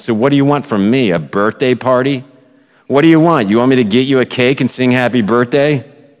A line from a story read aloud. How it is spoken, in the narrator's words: Her friend, quote unquote, responded in a nasty tone